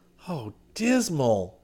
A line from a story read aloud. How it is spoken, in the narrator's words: he groaned